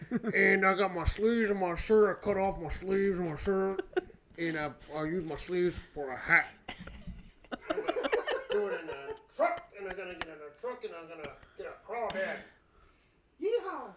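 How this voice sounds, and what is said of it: Exaggerated Southern country accent. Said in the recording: “How would you say oil in a Southern accent”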